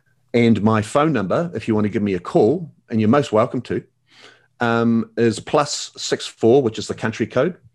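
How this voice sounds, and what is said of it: Attractive foreign accent. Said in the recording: “the sexy accent”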